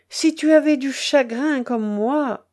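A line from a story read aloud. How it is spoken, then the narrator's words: Drawling tone. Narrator (French): dit-elle d'un ton traînant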